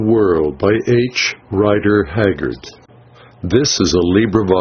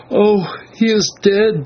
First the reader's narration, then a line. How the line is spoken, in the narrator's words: she moaned